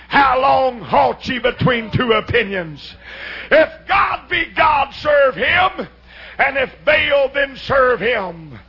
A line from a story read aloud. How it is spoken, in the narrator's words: Elijah comes thundering out of the hills and cries